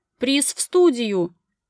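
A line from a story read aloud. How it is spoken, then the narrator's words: Pleased shout. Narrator (Russian): прокричал довольный ведущий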